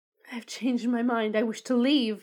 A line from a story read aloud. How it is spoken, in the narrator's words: shouted